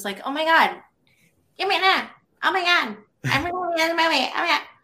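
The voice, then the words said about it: Imitates another person's bizarre voice. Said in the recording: “Her voice was like really bizarre.”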